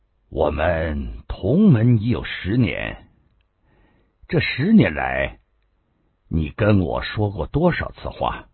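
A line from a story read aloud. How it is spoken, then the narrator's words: Abrupt. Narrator (Chinese): 杨林 突然说道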